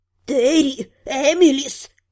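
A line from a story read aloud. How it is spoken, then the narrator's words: Hissing. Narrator (Russian): прошипела замершая в десятке шагов Вента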